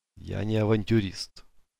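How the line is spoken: Whispered. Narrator (Russian): прошептал Диего

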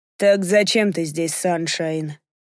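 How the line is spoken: Weary question. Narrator (Russian): спросил устало

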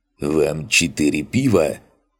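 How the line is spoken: Inquiring elf. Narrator (Russian): поинтересовался эльф

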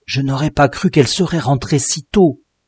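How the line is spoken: Said quietly. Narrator (French): dit Jasmin tout bas

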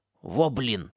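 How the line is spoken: Muttered. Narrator (Russian): пробормотал он

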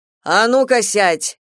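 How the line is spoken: Barking doctor. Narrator (Russian): гаркнула врач

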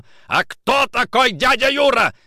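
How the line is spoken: Shouting. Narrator (Russian): закричал Никитин

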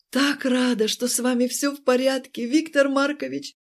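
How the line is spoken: Sob. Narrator (Russian): всхлипнула

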